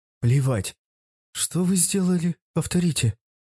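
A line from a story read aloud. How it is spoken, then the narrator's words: Frozen, stunned whisper. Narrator (Russian): прошептал оцепенея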